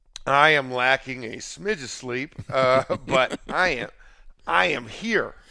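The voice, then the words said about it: Worn-out, weak voice. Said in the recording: “my voice is not here though”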